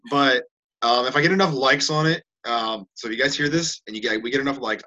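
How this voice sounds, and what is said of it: Sniffly, congested voice. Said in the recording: “I am like all of a sudden sneezing over here ... sorry if you guys are hearing me sniffling on this ... I'm getting all sniffly”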